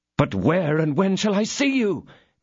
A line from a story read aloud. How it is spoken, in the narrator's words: cried D'Artagnan